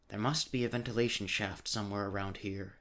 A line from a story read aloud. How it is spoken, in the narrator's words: he whispered, his mouth not an inch from Carnes' ear